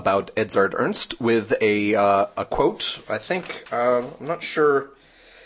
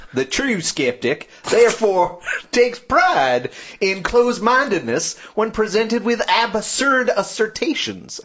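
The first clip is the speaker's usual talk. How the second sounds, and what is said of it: Put-on American Southern accent. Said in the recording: “Should I do it in a southern accent?”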